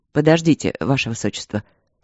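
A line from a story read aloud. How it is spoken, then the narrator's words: Stern. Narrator (Russian): строго остановил ее Игорь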